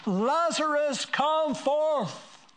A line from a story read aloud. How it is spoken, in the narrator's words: Jesus shouted with a loud voice